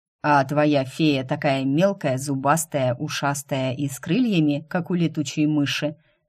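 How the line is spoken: Plain. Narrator (Russian): спросил он наконец

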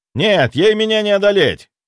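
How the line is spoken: Shout over noise. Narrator (Russian): прокричал я сквозь шум

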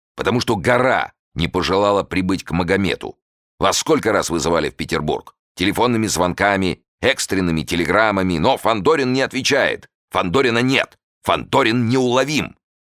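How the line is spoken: Angry, nonstop. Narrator (Russian): сердито заговорил Жуковский и уже не мог остановиться

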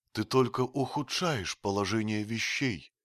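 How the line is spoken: Sad voice. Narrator (Russian): печально проговорила Джоанна

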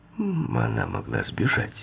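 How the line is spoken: Gentle remark. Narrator (Russian): мягко заметил Дон

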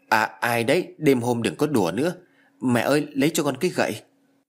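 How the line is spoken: Trembling question. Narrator (Vietnamese): Giọng của tôi run rẩy hỏi

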